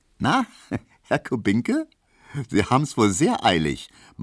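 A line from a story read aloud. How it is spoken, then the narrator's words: Laughing remark. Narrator (German): meinte die und lachte Emil Kubinke entgegen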